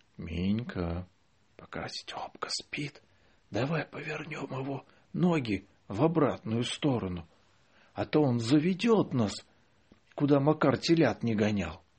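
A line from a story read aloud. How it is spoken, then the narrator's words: Whisper. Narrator (Russian): Лёля шепотом сказала мне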